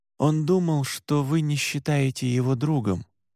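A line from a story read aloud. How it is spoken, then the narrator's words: Quiet. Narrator (Russian): тихо сказал я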